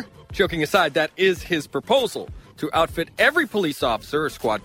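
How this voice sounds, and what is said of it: Usual voice. Nothing is said of it.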